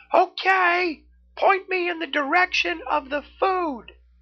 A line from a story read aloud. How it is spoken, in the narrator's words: Neff yelled back